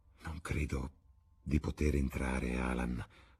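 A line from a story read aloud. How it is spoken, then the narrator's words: Murmured. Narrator (Italian): mormorò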